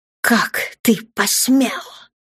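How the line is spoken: Angry hiss. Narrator (Russian): прошипела Даша

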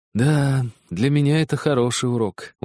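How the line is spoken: Glum remark. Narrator (Russian): уныло заметил Хедерли

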